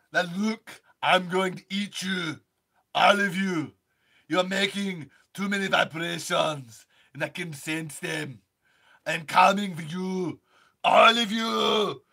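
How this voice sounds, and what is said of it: Arnold Schwarzenegger impression. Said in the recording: “Let me finish my Arnold.”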